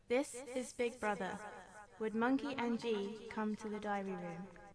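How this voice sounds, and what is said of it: Put-on London woman's accent. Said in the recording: “putting on a stupid woman's London accent”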